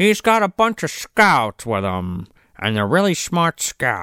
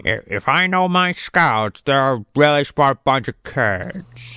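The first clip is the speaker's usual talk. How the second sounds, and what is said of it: James Cagney-like impression. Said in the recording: “It sounds like fucking James Cagney.”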